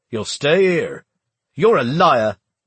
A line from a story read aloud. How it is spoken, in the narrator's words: Plum spat